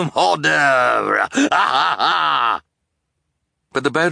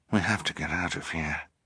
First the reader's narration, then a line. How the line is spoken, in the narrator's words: Esme murmured